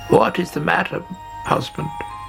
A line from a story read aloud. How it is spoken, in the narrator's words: She croaked